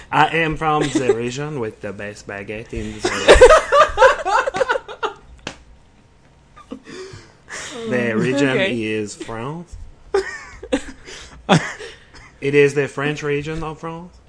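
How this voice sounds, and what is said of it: Put-on French accent. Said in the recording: “Why do you prefer a French accent?”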